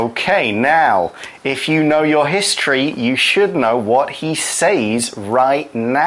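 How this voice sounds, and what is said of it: Usual voice. Nothing is said of it.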